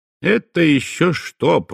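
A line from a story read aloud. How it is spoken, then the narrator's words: Grumble. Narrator (Russian): проворчал я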